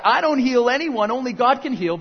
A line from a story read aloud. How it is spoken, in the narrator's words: about to yell back